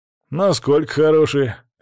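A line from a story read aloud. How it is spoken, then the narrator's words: Lazy question. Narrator (Russian): лениво спросил тот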